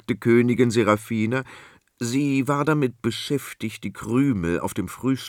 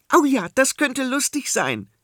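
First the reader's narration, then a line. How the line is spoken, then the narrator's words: Calling out. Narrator (German): rief Prinzessin Adela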